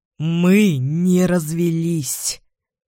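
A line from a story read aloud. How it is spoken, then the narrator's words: Hoarse, strained. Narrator (Russian): говорит он хрипло, так, будто ему трудно произносить каждое слово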